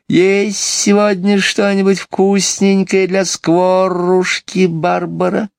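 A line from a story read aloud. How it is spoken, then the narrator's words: Soft, ingratiating bird voice. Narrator (Russian): Скворец сказал тихим, вкрадчивым голосом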